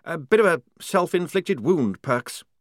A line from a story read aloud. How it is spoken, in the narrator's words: he said nervously